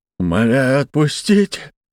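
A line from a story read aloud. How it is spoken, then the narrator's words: Whimpering plea. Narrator (Russian): проскулил мужчина, привязанный к столбу посреди сарая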